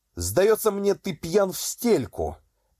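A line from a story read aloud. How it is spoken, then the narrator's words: Shouted. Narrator (Russian): крикнул князь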